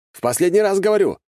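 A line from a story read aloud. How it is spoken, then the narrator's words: Shouted. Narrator (Russian): крикнул я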